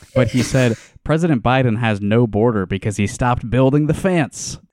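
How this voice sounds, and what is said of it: Elderly Midwestern man impression. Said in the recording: “Chuck Grassley impression ... what does a 90-year-old Midwestern man sound like? ... fence is like my key to getting the accent right”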